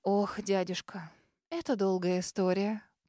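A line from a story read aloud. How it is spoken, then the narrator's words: Feigned sorrowful sigh. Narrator (Russian): Притворно горестно вздохнула, с трудом скрывая свое удивление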